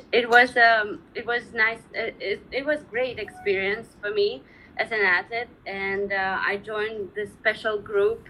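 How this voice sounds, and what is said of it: Foreign-accented English. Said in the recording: “I love your accent. So cute.”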